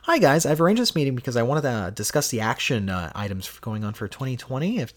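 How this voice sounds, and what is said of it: Polished professional phone voice. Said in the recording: “That's my work phone voice”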